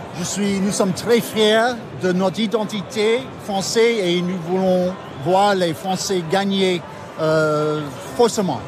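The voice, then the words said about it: Speaks French with an accent. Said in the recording (French): “votre très bel accent”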